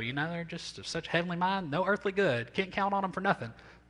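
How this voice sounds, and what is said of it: Put-on country accent. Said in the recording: “use that with the country accent so you can hear it from the throat of your grandmother”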